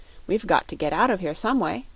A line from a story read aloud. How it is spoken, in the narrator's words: said firmly